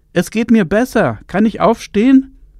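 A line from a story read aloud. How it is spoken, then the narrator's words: Calling out. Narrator (German): rief sie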